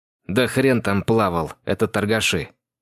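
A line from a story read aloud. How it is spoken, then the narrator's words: Angry speech. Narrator (Russian): зло проговорил Андрей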